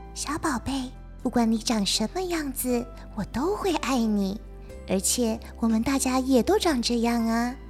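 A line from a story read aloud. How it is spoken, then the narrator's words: Soft, gentle. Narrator (Chinese): 妈妈温柔地，轻声地说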